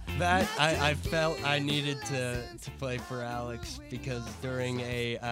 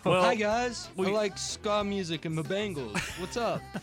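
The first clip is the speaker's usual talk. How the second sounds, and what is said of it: Impression of Alex Lundberg. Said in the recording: “impersonate Alex Lundberg. And so my best Alex Lundberg impression”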